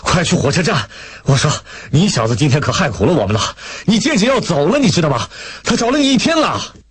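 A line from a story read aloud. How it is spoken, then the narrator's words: Roaring. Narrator (Chinese): 向秋生大吼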